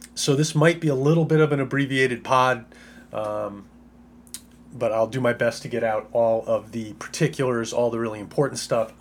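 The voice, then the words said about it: Sick, under-the-weather voice. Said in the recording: “Might be able to hear it in my voice... this bug that she's been fighting off”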